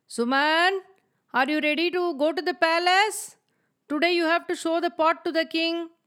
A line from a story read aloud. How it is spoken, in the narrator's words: Suman's father called out to him